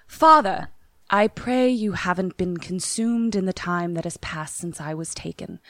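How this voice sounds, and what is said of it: Put-on British accent. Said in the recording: “I'm going to give you a British accent.”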